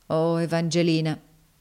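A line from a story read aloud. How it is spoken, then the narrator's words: Plain. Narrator (Italian): disse egli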